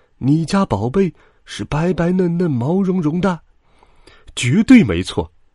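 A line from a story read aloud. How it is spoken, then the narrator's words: Happy exclamation. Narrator (Chinese): 羊爸爸高兴的叫起来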